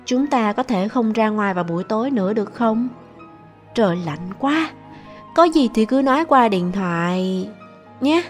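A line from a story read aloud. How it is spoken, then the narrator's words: Soft, awkward question. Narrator (Vietnamese): cô đã nhìn tôi với vẻ rất khó xử, khẽ hỏi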